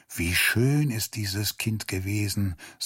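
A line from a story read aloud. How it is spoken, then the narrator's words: Sighing. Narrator (German): sagte er seufzend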